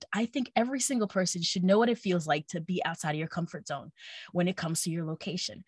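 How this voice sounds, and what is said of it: Long Island accent. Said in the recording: “apparently I sound like I'm from Long Island ... I have an accent”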